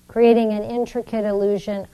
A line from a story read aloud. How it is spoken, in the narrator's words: I laughed, teasing those men